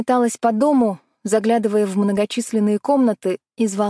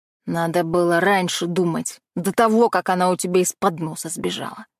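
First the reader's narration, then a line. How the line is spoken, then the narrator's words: Wry snort. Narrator (Russian): хмыкнул Дэн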